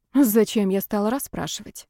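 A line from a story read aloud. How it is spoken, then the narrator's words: Heavy weary sigh. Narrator (Russian): тяжело вздохнула она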